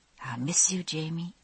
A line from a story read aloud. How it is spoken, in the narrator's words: I said softly